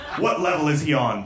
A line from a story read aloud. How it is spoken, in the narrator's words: Boehner growled